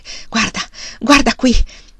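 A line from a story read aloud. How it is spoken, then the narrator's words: Panting. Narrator (Italian): ansimò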